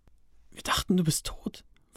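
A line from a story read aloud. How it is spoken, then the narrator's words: Whisper. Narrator (German): flüsterte er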